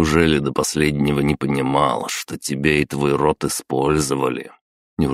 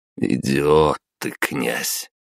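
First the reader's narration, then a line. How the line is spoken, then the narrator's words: Heavy sigh. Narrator (Russian): Тяжело вздохнул я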